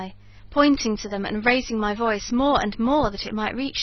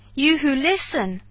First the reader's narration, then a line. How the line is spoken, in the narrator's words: I cried, shouting past him to the beast-men